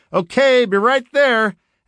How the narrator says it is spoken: I shouted

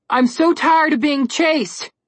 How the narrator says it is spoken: Connor yelled

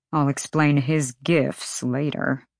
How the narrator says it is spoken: Hunt murmured

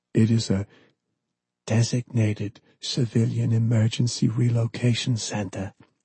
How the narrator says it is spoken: Pellegrino finally replied, his voice barely above a whisper, as if conveying a great secret

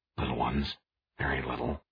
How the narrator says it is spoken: he said, then extra quietly

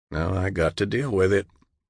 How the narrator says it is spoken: John finally replied, wearily

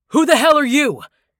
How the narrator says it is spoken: Tappan cried

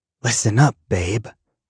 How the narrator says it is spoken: I whisper

